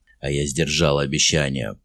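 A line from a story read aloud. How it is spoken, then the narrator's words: Growled. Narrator (Russian): прорычал Мерстон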